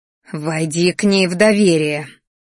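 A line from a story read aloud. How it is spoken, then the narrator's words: Growling woman. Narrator (Russian): рычала женщина, которая меня родила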